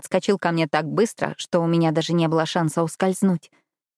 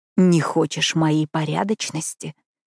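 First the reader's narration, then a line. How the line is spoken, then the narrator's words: Growl into ear. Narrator (Russian): Зарычал он мне в ухо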